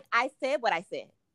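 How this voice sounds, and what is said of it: Imitates another person's voice. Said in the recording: “in my Nene Leakes voice”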